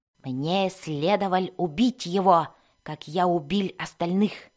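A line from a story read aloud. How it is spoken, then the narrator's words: Barely audible mutter. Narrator (Russian): Пробормотал он себе под нос слишком тихо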